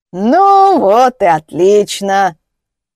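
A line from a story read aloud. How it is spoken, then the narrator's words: Hoarse mocking wheeze. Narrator (Russian): прохрипел он, насмешливо скривившись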